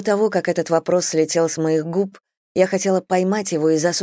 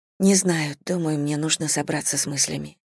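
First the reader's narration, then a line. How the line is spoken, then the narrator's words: Muttering. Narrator (Russian): пробормотала я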